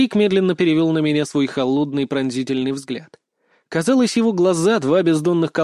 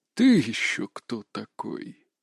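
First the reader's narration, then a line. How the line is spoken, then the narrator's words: Low hoarse menacing voice. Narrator (Russian): произнес он низким хриплым голосом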